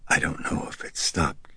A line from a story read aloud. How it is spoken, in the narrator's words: she whispered